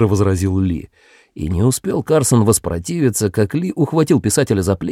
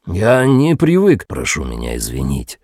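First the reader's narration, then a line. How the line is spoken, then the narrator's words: Deep pleasant voice. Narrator (Russian): промолвил Ли глубоким приятным голосом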